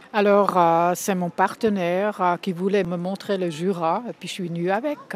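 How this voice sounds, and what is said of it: Slight Bernese Swiss accent. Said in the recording (French): “J'entends un petit accent, j'ai tort ou pas? ... Vous avez raison, de Berne.”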